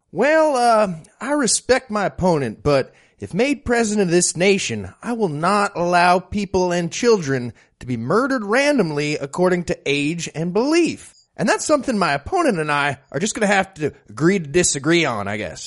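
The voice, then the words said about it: Put-on southern accent. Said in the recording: “apparently I have a southern accent now.”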